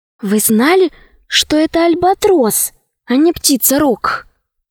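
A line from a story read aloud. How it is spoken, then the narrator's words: Whispered question. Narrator (Russian): спросила шепотом Алиса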